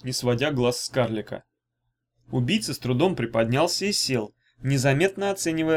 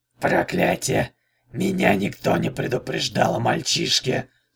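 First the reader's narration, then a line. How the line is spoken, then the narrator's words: Hoarse. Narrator (Russian): сказал хрипло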